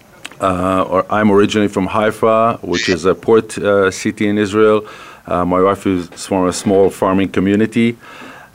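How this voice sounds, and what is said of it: Israeli accent. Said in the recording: “people are going to sense there's an accent there ... The accent is an Israeli accent”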